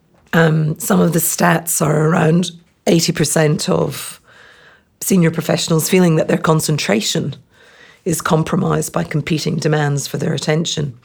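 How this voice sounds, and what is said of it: Hoarse, strained, fading voice. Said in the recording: “sorry, I'm losing my voice here”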